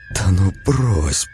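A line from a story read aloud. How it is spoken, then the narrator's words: Disbelieving whisper. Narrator (Russian): прошептала она, не веря своим глазам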